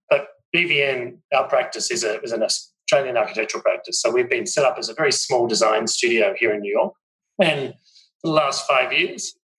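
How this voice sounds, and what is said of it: Australian accent. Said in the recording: “obviously an Australian, which my accent might give away”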